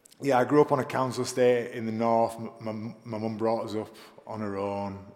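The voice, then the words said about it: Soft northern English accent. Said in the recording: “I grew up in the north of England. I know you probably can't tell from my accent. ... It's very soft. ... it's been dulled down by lots of London.”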